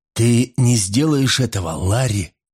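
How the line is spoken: Hoarse rasp. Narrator (Russian): прохрипел

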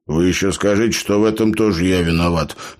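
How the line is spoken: Grumbled. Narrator (Russian): позволил себе проворчать Лоренс

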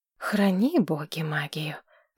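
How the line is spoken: Sigh. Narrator (Russian): вздохнула Маргарет

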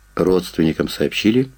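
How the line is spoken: Plain. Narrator (Russian): спросил я

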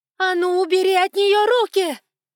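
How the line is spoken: Screamed in strange voice. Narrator (Russian): Не своим голосом заорала Эванс

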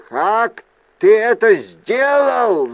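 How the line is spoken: Yelled. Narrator (Russian): завопил он

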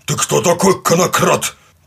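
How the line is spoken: Gruff bark. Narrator (Russian): гаркнул он

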